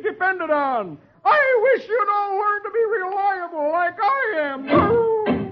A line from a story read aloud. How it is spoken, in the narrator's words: yelling